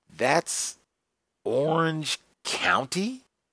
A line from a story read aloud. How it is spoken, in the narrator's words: Cochran sputtered